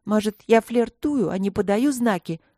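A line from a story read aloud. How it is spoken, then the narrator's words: Snapping retort, female. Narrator (Russian): огрызнулась гномка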